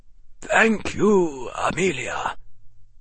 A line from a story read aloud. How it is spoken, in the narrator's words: Albus said gravely